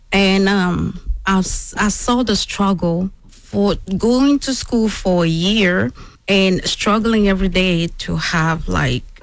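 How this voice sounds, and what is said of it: Speaks with a noticeable accent. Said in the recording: “I love your accent too. You hear that accent? ... Beautiful.”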